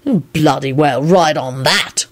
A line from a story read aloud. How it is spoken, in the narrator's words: Lupin said crossly